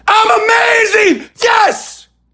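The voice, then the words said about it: Screaming with conviction. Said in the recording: “screaming”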